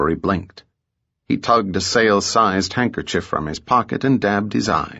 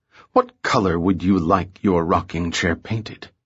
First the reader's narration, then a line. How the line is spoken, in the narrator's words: Lillian purred through clenched teeth